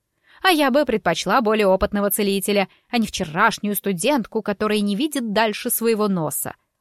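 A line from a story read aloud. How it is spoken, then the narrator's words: Snapping lady. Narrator (Russian): огрызнулась дама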